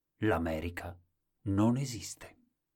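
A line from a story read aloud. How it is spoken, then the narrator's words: Sad, very quiet voice. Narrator (Italian): sorrise tristemente e poi disse così piano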